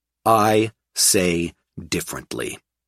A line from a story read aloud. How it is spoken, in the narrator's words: I said firmly